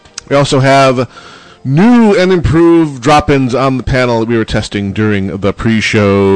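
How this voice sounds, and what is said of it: Usual voice. Nothing is said of it.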